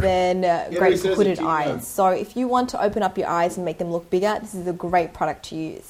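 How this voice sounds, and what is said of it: Australian accent. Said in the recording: “an Asian chick with like an Australian accent ... Australian accent”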